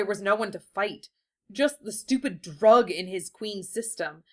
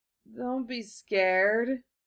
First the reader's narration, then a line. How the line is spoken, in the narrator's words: Jupiter slurred